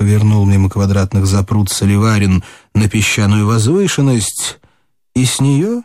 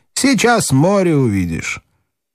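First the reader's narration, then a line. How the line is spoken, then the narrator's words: Man speaking with a laugh. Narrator (Russian): армянин сказал, засмеявшись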